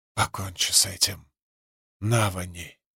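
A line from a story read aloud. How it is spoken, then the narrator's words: Whisper. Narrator (Russian): прошептала Рабаниэль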